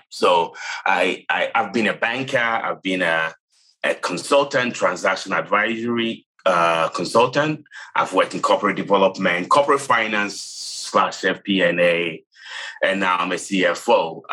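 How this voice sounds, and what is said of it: Ghanaian English accent. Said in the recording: “I was born and raised in Ghana, if you guess where the accent is from”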